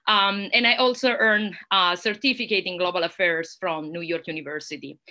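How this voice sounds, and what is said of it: Italian accent. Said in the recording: “Italy, which is also my home country and probably you can hear that from my accent”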